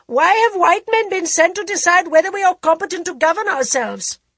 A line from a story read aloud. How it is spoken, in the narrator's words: shouted a young journalist from Sirpur